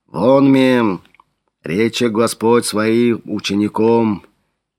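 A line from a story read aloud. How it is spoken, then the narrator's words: Low deep voice. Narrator (Russian): Низким глубоким голосом начал Флавиан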